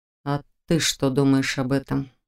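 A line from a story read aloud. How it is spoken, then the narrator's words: Quiet male question. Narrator (Russian): поинтересовался он тихо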